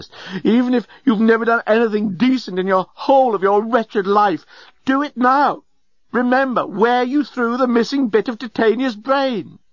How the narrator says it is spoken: cried the journalist

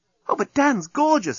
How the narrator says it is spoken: exclaimed Nettie

